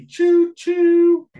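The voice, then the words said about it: Imitates a train whistle. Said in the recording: “that was my train impression ... you went up. Key change.”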